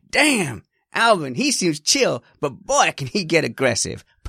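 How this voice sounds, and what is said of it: Put-on American accent. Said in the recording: “do it in an American voice ... Perfect American accent”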